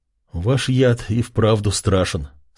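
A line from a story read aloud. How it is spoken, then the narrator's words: Quiet, to himself. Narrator (Russian): сказал он негромко, как будто сам себе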